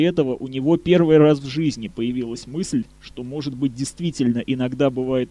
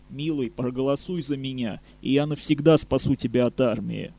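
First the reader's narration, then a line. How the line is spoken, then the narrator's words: Hot whisper in ear. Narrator (Russian): жарко прошептала на ухо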